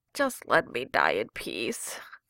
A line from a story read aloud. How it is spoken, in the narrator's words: Jensen moaned